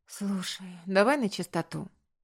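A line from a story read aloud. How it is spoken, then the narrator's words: Tired sigh, summarizing. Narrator (Russian): устало вздохнув, резюмировала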